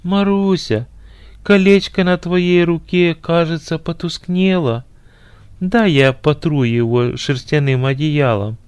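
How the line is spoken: Falsely tender, hidden anger. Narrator (Russian): Негодованием закипело сердце жениха, но он скрыл свое возмущение и деланно ласковым голосом сказал

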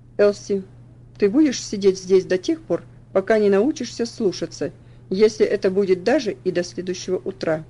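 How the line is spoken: Very stern. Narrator (Russian): сказал очень суровым тоном

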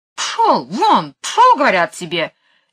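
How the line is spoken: Angry woman. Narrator (Russian): сердито ... мисс Ларк

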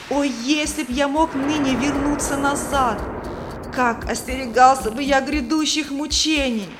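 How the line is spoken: Wailing. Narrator (Russian): Третий вопил

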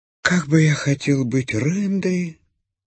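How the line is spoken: Sad sigh. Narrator (Russian): вздыхал грустно Бим-Бим

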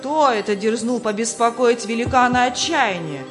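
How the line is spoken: Shouted, castle master. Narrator (Russian): крикнул хозяин замка

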